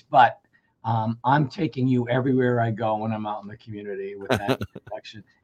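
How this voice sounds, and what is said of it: Hoarse, strained voice. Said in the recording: “sorry for my voice. I just have a little laryngitis”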